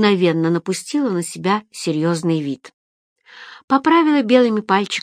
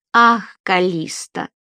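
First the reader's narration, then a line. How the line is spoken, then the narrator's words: Sighing. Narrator (Russian): вздохнула Фелиция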